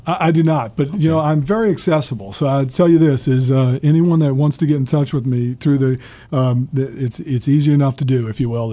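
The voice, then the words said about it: New Orleans accent. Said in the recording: “he's got this New Orleans accent”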